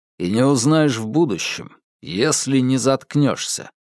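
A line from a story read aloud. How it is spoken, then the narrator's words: Rude cutting off. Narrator (Russian): грубо оборвал он ее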